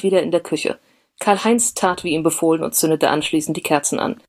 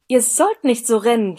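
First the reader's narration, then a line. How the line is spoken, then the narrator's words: Stern shout. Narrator (German): schrie sie streng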